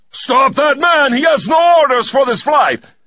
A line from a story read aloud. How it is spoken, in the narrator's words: bellowed